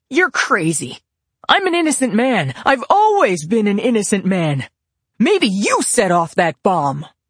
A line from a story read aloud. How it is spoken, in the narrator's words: Grant yelled back